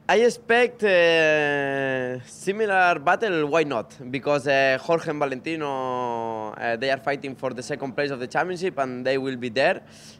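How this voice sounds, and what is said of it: Slightly hoarse, throaty voice. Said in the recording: “I can hear the throat a little bit ... a little bit cold here. Still, my voice is not perfect.”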